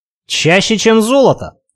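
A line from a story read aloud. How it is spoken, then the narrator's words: Loud laughter. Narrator (Russian): захохотал собеседник, ничуть не удивленный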